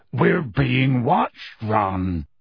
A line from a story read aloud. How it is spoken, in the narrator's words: he said gruffly